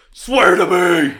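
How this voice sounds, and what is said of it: Batman impression voice. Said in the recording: “my Christian Bale Batman impression”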